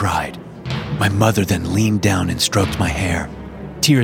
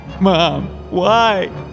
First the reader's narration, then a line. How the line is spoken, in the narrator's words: I sobbed